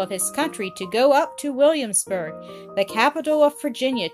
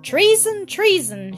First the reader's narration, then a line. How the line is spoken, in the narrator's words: shouted the Speaker of the House